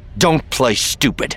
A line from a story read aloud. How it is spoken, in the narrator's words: Luke snapped